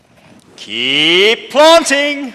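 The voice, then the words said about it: Imitates a TV host's catchphrase voice. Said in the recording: “in my best strictly voice”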